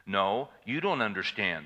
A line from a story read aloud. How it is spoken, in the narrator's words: Sherman said